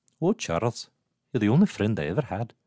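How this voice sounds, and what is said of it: Moira's accent from X-Men animated series. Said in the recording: “your Moira is unmatched... that accent is straight from X-Men, the animated series”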